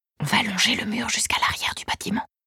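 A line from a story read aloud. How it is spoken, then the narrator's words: Whispered even more softly. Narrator (French): chuchote-t-il, encore plus doucement, encore plus près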